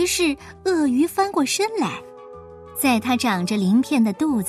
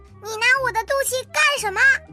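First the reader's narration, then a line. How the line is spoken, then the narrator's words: Loud shout. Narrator (Chinese): 大声的喊道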